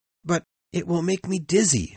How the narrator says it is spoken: exclaimed

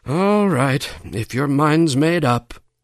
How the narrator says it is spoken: sighed Sally

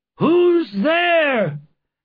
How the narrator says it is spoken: they cried

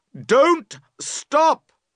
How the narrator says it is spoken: you cry loudly

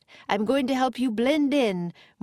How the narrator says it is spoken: Morgan shouted above the wind

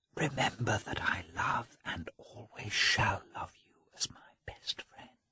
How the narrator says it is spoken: Anna's emotion had spread to Dolly, who … whispered

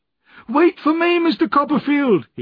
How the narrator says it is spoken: he cried

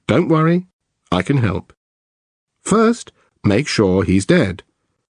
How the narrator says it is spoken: The operator, in a calm voice, says

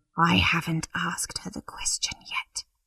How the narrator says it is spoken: whispered

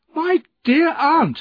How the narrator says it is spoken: I cried

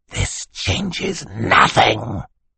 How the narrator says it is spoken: he hissed at them

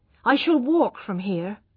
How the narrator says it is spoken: she said firmly

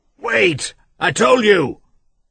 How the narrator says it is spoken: he shouted to her

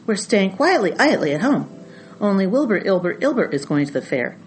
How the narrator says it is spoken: snapped the goose

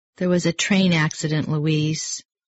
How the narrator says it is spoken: said her sister Josephine quietly

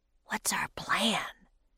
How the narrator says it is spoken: whispered Jack

